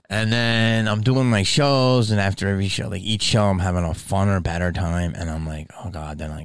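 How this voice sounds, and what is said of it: Usual voice. Nothing is said of it.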